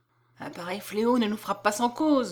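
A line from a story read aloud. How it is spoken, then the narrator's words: Murmuring crowd. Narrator (French): murmure le peuple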